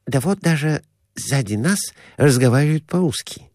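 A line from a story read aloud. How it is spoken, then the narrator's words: Whisper. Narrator (Russian): шепнул доктор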